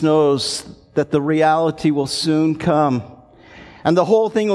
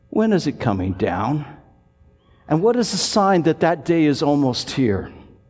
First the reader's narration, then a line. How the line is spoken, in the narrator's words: they almost whisper